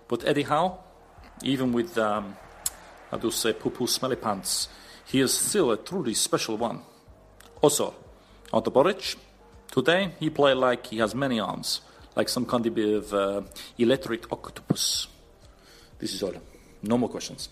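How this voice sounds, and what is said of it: Put-on Czech accent. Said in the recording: “Just what part of the Czech Republic was that accent, by the way? Classic stuff.”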